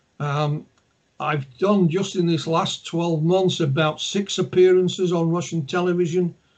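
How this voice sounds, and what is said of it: Yorkshire English accent. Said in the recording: “my accent, my Yorkshire accent”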